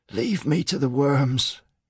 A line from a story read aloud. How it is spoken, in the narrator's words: he wheezed